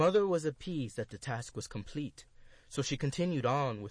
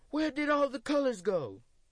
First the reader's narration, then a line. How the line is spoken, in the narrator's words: exclaimed